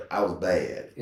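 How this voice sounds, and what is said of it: Put-on Southern dialect. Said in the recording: “That's my mama. I'm using my mother's southern dialect.”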